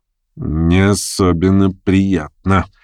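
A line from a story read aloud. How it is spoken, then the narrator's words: Grumbling through teeth. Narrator (Russian): проворчал он сквозь зубы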